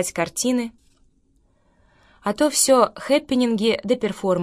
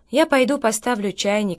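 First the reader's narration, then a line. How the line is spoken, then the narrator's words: Plain boy. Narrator (Russian): сказал мальчик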